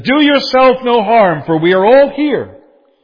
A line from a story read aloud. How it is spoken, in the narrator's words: Paul called out with a loud voice, and he said